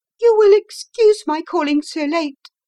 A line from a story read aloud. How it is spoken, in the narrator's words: she began, and then, suddenly losing her self-control